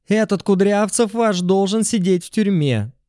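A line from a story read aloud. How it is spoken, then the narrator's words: Loud shout. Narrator (Russian): Заорала Галина Юрьевна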